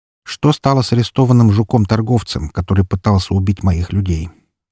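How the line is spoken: Neutral question. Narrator (Russian): спросил у него нейтральным тоном

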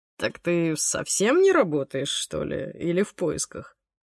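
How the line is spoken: Embarrassed mumble. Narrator (Russian): Леха смущенно пробормотал

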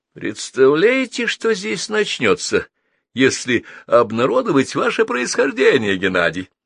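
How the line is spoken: Laughing. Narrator (Russian): засмеялся капитан

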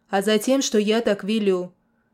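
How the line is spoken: Sharp shout, then explaining. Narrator (Russian): Прикрикнул на него подьячий, но все же пояснил

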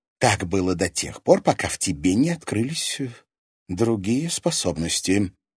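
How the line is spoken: Low voice. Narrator (Russian): вполголоса ответила та

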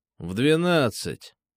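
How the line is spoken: Grumbling. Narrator (Russian): проворчал

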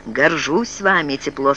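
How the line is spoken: Plain. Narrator (Russian): сказал он

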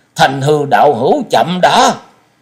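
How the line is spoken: Urgent call. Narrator (Vietnamese): Liễu Phàm đại sư gấp giọng kêu lên

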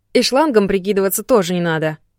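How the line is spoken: Stern. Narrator (Russian): строго сказала я

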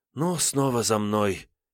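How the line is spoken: Heavy sigh. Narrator (Russian): тяжко вздохнула Лёлька

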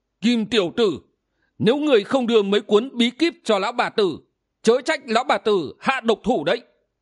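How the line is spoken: Old woman shrieking. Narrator (Vietnamese): Lão quái bà rú lên

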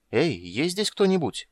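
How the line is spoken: Uncertain call. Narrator (Russian): неуверенно позвала Крисания

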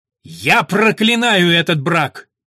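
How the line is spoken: Loud shout. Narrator (Russian): Чей-то громкий голос прокричал

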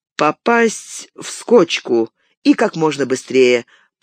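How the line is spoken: Mumbling, mouth full. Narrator (Russian): промямлил Фродо с набитым ртом

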